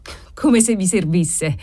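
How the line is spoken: Exclaiming. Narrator (Italian): esclamò Cesare

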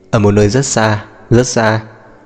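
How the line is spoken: Laughing. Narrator (Vietnamese): Lý Mấy Ngàn bật cười

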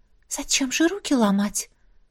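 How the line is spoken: Whisper. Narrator (Russian): прошептала

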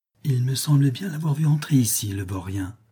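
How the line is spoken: Murmured. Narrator (French): murmura-t-elle

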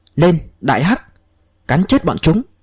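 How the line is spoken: Loud shout. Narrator (Vietnamese): Ông ta cao giọng quát

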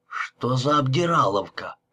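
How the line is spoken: Mutter. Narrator (Russian): пробормотал он

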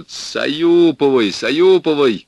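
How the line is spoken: Shouted while laughing. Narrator (Russian): крикнул он, смеясь

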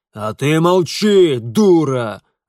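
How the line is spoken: Angry bark, father. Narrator (Russian): рявкнул на нее отец

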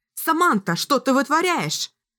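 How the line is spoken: Loud shout. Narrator (Russian): Кэлин громко выкрикнув имя девушки

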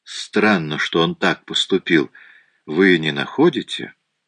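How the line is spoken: Very calm, subtle undertone. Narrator (Russian): Голос Пуаро звучал очень спокойно, но в нем было нечто такое

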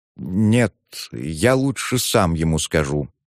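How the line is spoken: Uncertain reply. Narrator (Russian): неуверенно ответил Лужин-старший

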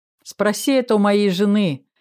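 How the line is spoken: Chuckled. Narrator (Russian): хохотнул тот

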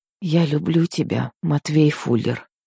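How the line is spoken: Even quieter whisper. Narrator (Russian): еще тише прошептала я

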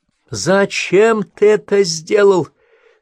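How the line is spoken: Angry shout. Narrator (Russian): закричала на него Эшли

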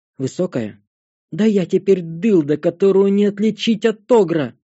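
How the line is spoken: Exclaiming. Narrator (Russian): воскликнула Светлая

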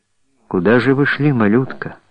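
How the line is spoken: Caring young man's question. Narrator (Russian): спросил заботливо юноша

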